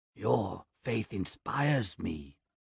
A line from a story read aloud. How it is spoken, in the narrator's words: Osgard whispers in my ear